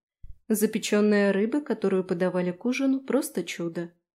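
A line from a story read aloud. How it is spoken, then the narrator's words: Plain. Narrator (Russian): ответила я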